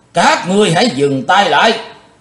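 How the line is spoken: Thunderous shout. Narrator (Vietnamese): tiếng quát tợ sấm

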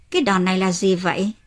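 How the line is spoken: Smiling. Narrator (Vietnamese): Kiun mỉm cười

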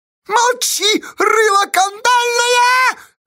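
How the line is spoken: Shrieking. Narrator (Russian): завизжала Фиска

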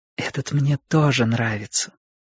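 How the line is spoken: Whisper. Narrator (Russian): прошептала мама

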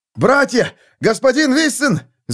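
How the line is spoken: Shouting. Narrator (Russian): закричал он

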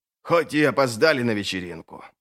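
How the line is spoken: Muttered. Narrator (Russian): пробормотал Варус

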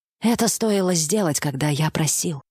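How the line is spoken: Weary old patriarch. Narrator (Russian): устало покачал головой патриарх

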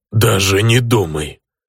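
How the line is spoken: Uncertain growl, orc. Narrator (Russian): прорычал орк, но как-то неуверенно

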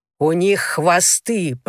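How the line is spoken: Growled. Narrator (Russian): прорычал он

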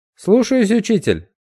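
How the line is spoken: Cheerful, brisk. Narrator (Russian): бодро ответил Пьемур

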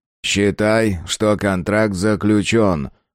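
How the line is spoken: Deep booming rumble. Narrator (Russian): прогудел киборг

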